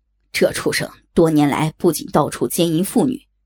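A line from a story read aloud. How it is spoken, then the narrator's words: Angry. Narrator (Chinese): 不戒怒道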